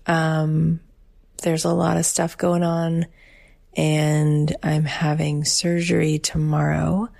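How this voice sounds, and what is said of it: Subdued, low-energy voice. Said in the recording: “you can probably tell from my voice, I'm not in my usual high vibe, big spirits”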